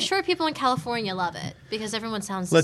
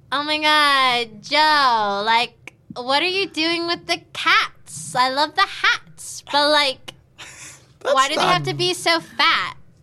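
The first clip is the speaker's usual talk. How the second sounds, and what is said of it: Nasal Valley Girl accent. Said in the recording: “Hear your Valley Girl go. ... That was in California. ... I thought it was nasally enough.”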